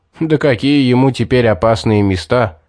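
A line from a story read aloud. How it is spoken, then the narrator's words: Chuckling. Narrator (Russian): хохотнул Стоун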